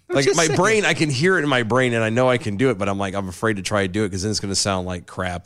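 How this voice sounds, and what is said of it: Hoarse voice. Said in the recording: “You're a bit hoarse. ... I am a bit hoarse”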